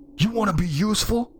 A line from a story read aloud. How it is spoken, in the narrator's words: I yelled